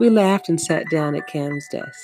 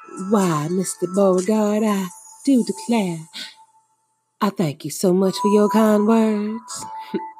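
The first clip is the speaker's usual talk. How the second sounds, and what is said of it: Southern Belle accent. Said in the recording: “in a Southern Belle voice.”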